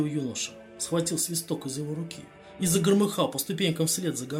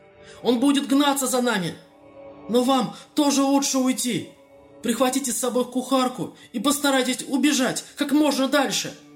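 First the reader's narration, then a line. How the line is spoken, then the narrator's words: Shouted. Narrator (Russian): Прокричав это, Кадгар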